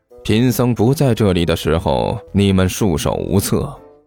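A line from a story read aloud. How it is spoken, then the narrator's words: Faint smile, mock-profound. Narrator (Chinese): 齐剑故作高深的淡淡一笑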